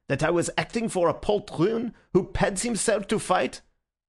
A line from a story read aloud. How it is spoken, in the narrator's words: he spluttered